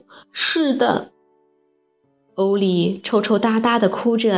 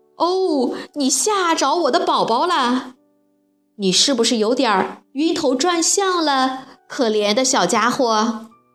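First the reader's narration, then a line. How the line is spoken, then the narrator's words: Loud, motherly. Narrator (Chinese): 袋鼠妈妈大声地说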